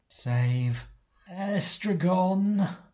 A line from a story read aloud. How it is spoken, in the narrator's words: Canos gasps, fighting against the spell that saps his power